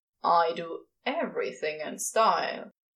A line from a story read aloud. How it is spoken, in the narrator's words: Crowley grumbles